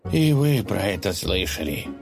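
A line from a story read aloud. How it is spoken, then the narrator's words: Dejected. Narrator (Russian): спросил князь упавшим голосом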